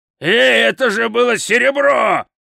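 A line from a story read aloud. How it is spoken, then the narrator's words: Loud yell. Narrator (Russian): завопил Хрун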